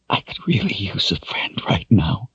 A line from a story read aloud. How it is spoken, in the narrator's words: he whispered